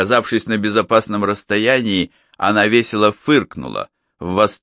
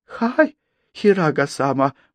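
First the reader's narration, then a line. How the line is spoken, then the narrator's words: Apologetic mumbling. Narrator (Russian): бормоча бесконечные извинения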